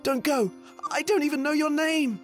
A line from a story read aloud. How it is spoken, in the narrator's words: shouted the prince